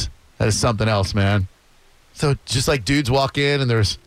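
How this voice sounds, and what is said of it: Usual voice. Nothing is said of it.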